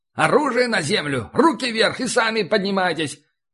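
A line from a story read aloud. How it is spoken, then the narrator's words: Shouting. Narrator (Russian): кричали на русском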